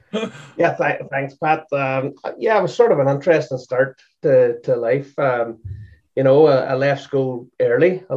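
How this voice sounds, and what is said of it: Northern Irish accent. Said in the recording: “I'm from the north of Ireland ... with your accent, you don't have a Boston accent”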